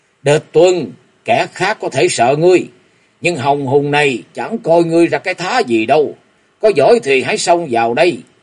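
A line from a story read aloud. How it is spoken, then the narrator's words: Deep gruff voice interjecting. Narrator (Vietnamese): Tên có giọng ồm ồm nọ liền chen vào nói ngay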